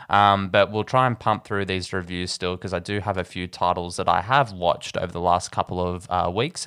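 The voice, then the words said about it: Nasal, congested voice. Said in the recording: “Excuse my voice, I'm not 100% at the moment. I have been battling a cold ... I do apologize for my voice being a bit nasally.”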